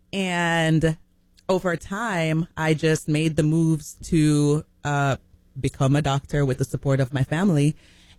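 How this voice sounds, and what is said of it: Jamaican accent. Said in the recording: “where's that accent from? ... I am Jamaican.”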